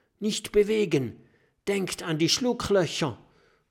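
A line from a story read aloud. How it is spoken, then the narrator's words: Called out. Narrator (German): ruft Kokosnuss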